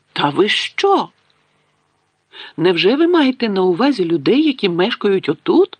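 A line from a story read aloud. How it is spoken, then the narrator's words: Exclaiming. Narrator (Ukrainian): вигукнула професорка МакГонагалл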